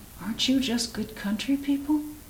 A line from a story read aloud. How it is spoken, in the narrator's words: she murmured